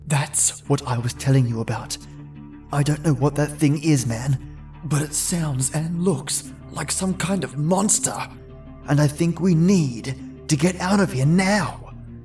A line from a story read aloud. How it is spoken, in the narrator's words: Warily, Jacob walked over to Kenny and whispered